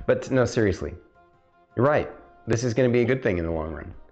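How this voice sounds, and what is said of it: Usual voice. Nothing is said of it.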